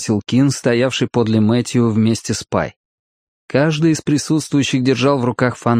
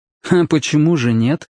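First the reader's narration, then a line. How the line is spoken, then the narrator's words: Skeptical grunt. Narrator (Russian): хмыкнул Мэтью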